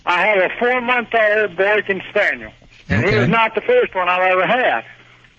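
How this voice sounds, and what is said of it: Regional accent. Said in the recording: “I hear your accent.”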